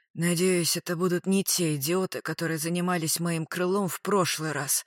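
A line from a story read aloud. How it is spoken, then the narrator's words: Hoarse wheeze. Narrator (Russian): прохрипел коллега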